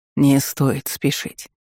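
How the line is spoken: Gentle restraint. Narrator (Russian): мягко осадил меня Джалил

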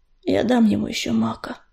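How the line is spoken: Sighing. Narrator (Russian): вздохнула Пепелица

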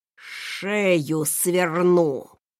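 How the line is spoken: Fierce, through gritted teeth. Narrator (Russian): Со свирепым видом процедил Рэндалл

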